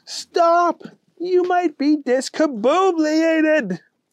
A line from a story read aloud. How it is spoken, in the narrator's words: Henry yelled